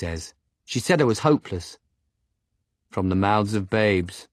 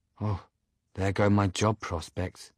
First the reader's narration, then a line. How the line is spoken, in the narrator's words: Simon says flatly